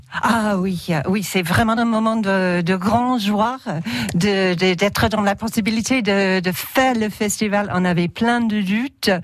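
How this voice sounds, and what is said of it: Anglophone accent speaking French. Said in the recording (French): “c'était au moment du printemps anglophone ... comme votre accent l'indique”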